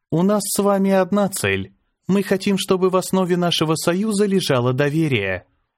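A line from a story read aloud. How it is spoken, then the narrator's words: Calm reply. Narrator (Russian): спокойно ответила Азара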